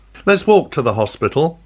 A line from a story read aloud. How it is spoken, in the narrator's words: Mark said